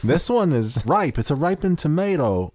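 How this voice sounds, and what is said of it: Imitates another person's voice. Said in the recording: “I don't know what accent this is. ... it's Christopher Walken.”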